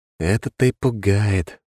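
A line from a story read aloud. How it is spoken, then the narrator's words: Sighing. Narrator (Russian): вздохнул я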